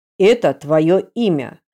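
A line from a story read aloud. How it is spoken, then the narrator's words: Stern clipped father's voice. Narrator (Russian): отчеканил отец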